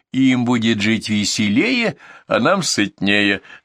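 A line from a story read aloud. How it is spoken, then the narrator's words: Two voices together, laughing. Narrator (Russian): закончили оба, захохотали, довольные своей шуткой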